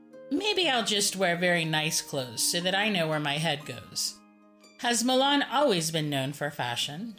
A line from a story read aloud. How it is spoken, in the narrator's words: she asked